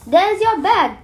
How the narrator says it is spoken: cried the fairy

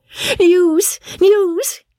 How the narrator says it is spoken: cried Polly

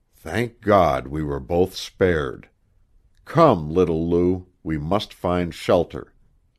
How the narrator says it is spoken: sternly repressing the words which would have rushed from his heart, he said quietly

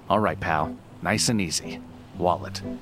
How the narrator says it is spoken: a voice that calmly says

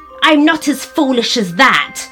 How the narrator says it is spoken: snapped the dwarf

